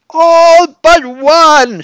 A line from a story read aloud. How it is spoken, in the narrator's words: she shrieked